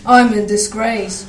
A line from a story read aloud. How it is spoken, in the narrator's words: Gordon said gloomily